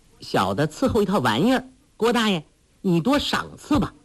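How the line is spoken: Laughing. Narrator (Chinese): 黄蓉笑道

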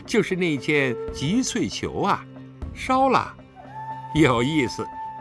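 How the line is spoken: Sudden cold sneer. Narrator (Chinese): 他恍然大悟，不禁冷笑一声

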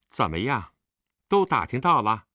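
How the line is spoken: Cold questioning. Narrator (Chinese): 冷冷地嗯了一声，问道

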